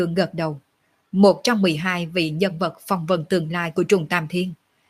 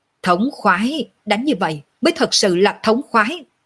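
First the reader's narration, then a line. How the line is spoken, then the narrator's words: Weak, laughing loudly. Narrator (Vietnamese): Lệ Hồn Đồ không có lấy nửa điểm sức lực, lại là vừa đi vừa cười to, liền thành kêu to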